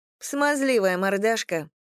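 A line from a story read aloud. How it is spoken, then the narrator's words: Snorting. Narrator (Russian): фыркнула Лиза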